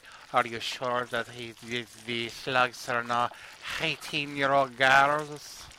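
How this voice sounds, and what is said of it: Put-on accent imitating a character. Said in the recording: “I'm doing an accent. It may not be her accent”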